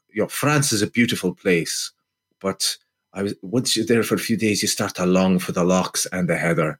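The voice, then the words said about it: Put-on Scottish accent. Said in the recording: “That Scottish accent was far too good. That was nothing like Kane's Scottish accent.”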